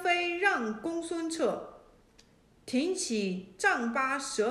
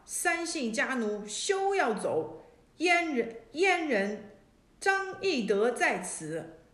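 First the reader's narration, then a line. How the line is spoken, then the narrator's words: Fierce loud shout. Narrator (Chinese): 一骑黑人黑马，厉声大叫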